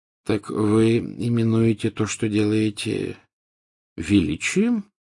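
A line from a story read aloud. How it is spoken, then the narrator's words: Gentle question. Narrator (Russian): мягко спросил Дамблдор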